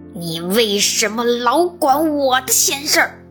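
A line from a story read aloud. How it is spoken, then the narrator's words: Angry roar. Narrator (Chinese): 狐狸……怒吼起来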